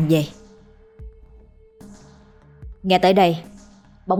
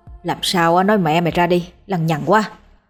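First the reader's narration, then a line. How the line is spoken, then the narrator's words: Irritable snapping. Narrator (Vietnamese): Hắn gắt gỏng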